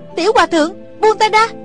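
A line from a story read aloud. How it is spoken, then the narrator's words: Weak woman crying out. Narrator (Vietnamese): cô không còn sức phản kháng, chỉ có thể kêu lên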